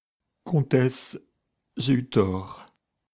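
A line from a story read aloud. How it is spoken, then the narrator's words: Voice broken with emotion. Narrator (French): reprit Denisov d'une voix brisée par l'émotion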